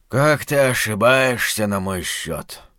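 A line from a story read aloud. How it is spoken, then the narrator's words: Tired. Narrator (Russian): устало сказал доктор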